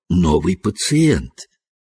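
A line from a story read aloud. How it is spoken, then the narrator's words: Whisper. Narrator (Russian): Так же шепотом продолжал он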